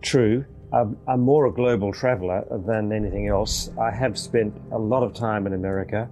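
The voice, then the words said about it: Non-American, likely Australian accent. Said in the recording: “if I'm hearing correctly from your accent, sir, not only are you not an American, but you told me before we started that you're actually in Melbourne, Australia.”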